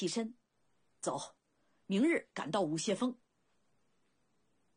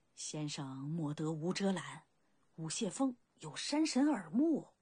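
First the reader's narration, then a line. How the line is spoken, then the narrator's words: Hasty cautious low voice. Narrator (Chinese): 通力连忙一虚，小心低声道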